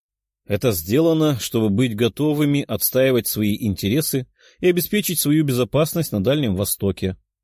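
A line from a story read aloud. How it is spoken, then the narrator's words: Calm and confident. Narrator (Russian): спокойно и уверенно ответил Стрельцов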